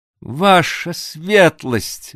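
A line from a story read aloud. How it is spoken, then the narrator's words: Exclaimed. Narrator (Russian): воскликнул, наконец, Девлет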